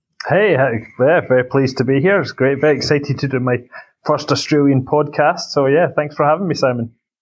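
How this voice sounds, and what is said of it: Scottish accent. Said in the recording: “a nice Scottish accent”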